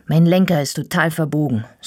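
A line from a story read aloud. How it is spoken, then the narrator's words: Angry. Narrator (German): sage ich wütend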